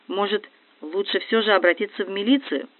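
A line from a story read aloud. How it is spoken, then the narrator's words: Timid. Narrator (Russian): робко говорит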